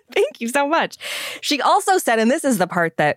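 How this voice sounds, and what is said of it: Usual voice. Nothing is said of it.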